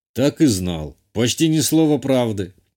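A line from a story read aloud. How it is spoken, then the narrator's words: Snort. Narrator (Russian): он хмыкнул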